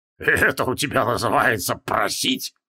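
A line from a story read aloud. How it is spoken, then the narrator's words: Snorting. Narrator (Russian): фыркнул Мдзгрвеш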